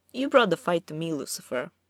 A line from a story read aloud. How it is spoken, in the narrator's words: he continued, still in the same easy, relaxed tone